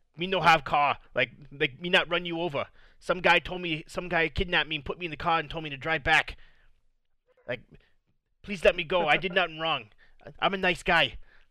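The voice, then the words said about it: Put-on Chinese accent. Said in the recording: “Somehow I adopted a Chinese accent ... why I started doing a Chinese accent, I don't know”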